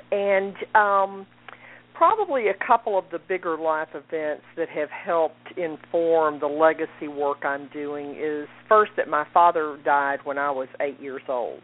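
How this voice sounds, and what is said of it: Texas accent. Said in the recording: “that is a Texas accent that you're hearing”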